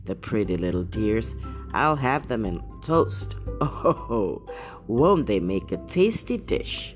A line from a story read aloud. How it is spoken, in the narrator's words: chuckled and said